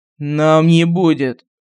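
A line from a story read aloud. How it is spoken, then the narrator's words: Through clenched teeth. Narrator (Russian): сквозь зубы процедил офицер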